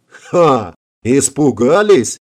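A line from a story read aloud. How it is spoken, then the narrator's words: Yell. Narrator (Russian): завопил Конти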